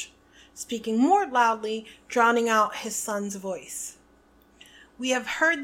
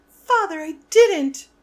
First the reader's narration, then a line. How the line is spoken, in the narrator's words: shrieked the boy in chains below